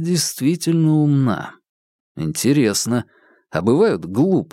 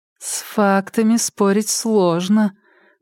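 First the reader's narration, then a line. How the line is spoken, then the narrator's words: Drawling. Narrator (Russian): протянула Ольга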